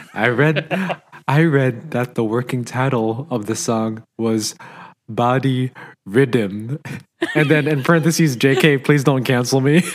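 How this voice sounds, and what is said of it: Imitates another person's voice. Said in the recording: “perfect Steven impersonation”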